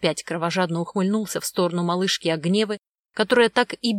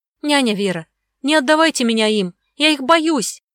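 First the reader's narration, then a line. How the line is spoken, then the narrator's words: Girl's frantic scream. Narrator (Russian): кричала истошно девочка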